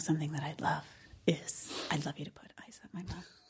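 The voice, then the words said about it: Whispered, quiet line. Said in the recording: “Why is she whispering? ... insists that they're quiet”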